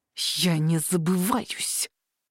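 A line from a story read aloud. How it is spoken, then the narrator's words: Angry hiss. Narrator (Russian): прошипел зло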